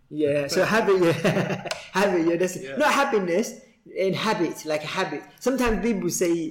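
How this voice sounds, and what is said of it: East London Cockney accent. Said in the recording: “my East London Cockney accent”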